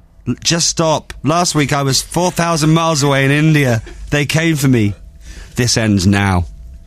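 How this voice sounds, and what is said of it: Performs a convincing put-on accent. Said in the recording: “the accent was very good there.”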